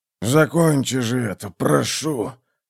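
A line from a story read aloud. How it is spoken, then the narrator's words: Hoarse rasp. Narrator (Russian): прохрипел он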